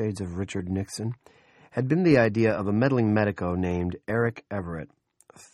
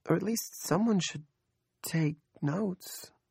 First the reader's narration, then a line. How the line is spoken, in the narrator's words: Andrea asked timidly